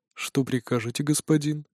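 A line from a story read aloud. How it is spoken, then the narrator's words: Calm question. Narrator (Russian): спокойно спрашивает Елаец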